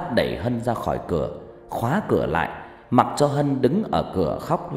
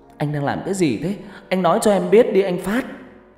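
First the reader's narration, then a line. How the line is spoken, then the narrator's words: Choked-up voice. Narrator (Vietnamese): Hân nói bằng giọng nghẹn ngào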